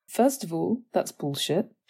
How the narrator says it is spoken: she stated directly

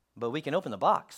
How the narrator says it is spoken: said Toad

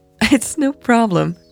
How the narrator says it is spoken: Natalie laughed again

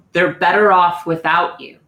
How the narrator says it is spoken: She's going to hear in this booming voice

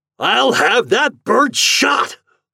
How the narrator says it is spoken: thundered Mr

